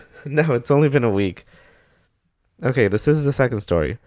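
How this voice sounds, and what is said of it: Weird-sounding voice from illness. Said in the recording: “Sorry if my voice sounds weird. I'm still recovering from being sick.”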